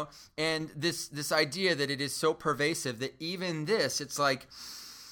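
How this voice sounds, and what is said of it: Usual voice. Nothing is said of it.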